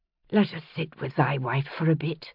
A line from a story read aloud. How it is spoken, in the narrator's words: she said softly